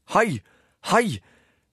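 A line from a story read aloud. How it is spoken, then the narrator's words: Distant police shouting. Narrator (Norwegian): ropte politiet nede ved porten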